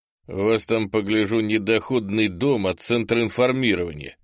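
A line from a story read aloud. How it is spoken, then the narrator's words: Smirking grunt. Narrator (Russian): хмыкнул попаданец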